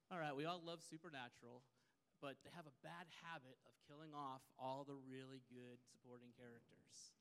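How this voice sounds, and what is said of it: Texan accent. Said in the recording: “I'm from Texas ... I like your accent, y'all.”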